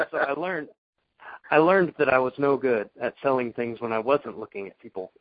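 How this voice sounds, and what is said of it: Southern American accent. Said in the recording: “my southern accent or something”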